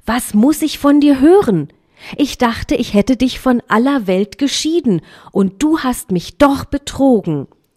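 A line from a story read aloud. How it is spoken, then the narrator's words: Sorceress calling out. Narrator (German): rief die Zauberin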